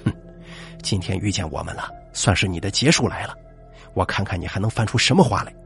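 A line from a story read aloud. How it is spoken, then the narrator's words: Cold snort. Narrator (Chinese): 屈叔 冷冷一哼，道了一句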